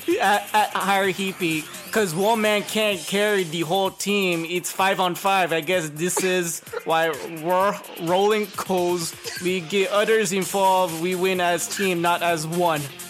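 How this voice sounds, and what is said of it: Bad put-on Romanian/Italian accent. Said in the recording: “What accent are you making? ... What accent were you speaking in? ... Romian. Romanian. ... It sounds like some bum ass Italian accent.”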